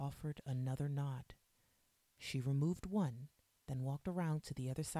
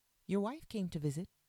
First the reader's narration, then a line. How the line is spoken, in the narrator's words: the nurse said